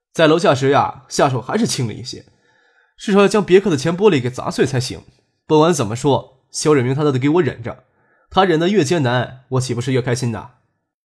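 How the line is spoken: Laughing. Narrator (Chinese): 张可笑着说

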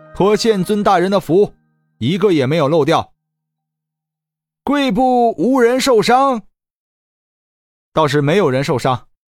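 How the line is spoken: Loud. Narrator (Chinese): 李直大声说道

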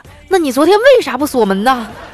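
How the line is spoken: Angry robber. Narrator (Chinese): 劫匪就怒了

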